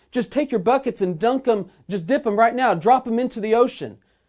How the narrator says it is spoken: captain yelled back

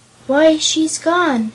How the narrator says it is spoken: exclaimed the boy

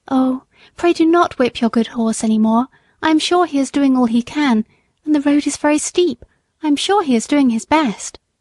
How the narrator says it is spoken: a lady stepped quickly up to him, and said in a sweet, earnest voice

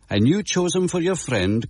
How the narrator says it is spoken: cried the justice

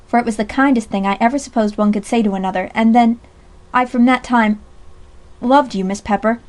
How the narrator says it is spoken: said Jack Lockhead gravely

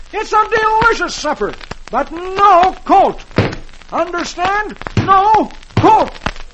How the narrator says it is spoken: Dagwood roars

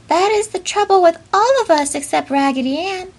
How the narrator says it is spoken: cried the little penny doll in a squeaky voice

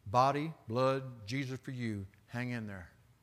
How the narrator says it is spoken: Josh muttered

